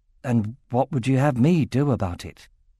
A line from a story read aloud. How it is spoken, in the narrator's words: he asked gently